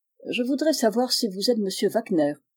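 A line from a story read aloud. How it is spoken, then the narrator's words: Curt. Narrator (French): dit Monsieur Philippe sèchement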